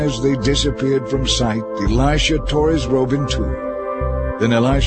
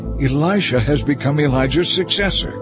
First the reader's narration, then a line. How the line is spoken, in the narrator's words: they exclaimed